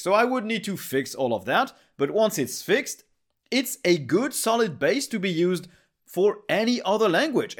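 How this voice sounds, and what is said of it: Non-native English accent. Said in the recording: “my English can be pretty weird, my accent is not perfect”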